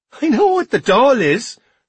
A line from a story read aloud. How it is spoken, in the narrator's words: replied Sean, laughing